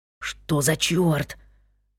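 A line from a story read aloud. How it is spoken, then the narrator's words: Whispered. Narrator (Russian): шепнул Джон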